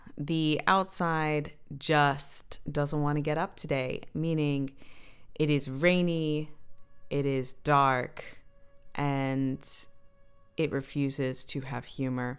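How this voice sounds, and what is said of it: Tired, just-woke-up voice. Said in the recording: “voice for the radio voice ... This is legit the voice that I woke up with today ... this is my lack of sleep voice”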